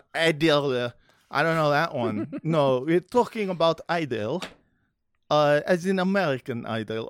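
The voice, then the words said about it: Attempted Israeli accent. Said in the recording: “I'm trying to do an Israeli accent.”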